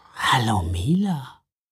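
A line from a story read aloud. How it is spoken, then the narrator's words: Purred by a cat. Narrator (German): schnurrte die Weihnachtskatze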